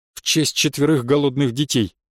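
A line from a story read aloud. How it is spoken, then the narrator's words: Grumbled. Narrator (Russian): буркнула Наташа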